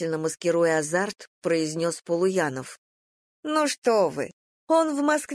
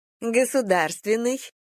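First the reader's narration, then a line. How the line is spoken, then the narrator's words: Laughing woman. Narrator (Russian): засмеялась женщина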